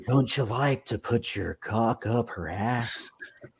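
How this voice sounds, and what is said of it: Jack Nicholson impression. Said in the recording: “That's my best Jack Nicholson right now. It's hard to do his voice.”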